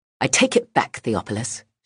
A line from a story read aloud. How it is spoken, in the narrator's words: she spat